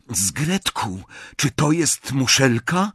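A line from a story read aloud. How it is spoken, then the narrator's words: Tense whisper. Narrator (Polish): szepnął gotów walczyć, jeśli zajdzie potrzeba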